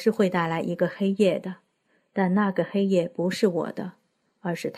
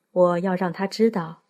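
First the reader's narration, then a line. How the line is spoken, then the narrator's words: Sighing. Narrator (Chinese): 尼都萨满叹了口气，对王禄说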